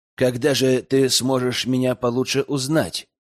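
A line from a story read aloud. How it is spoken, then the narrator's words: Plain question. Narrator (Russian): спросил Ликс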